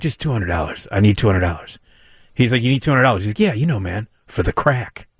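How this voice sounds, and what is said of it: Impression of a Baldwin brother. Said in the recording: “That's not a bad impersonation either ... Kind of all of the Baldwin brothers kind of sound like that. They all kind of have that, you know, that kind of voice.”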